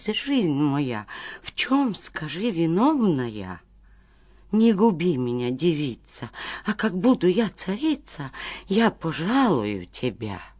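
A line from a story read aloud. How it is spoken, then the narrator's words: Terrified pleading. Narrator (Russian): до смерти испугалась и взмолилась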